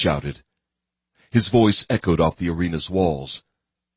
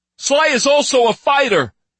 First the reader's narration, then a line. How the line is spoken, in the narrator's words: Rex shouted